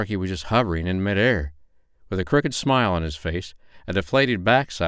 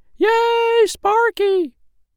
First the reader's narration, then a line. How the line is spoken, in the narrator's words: everyone yelled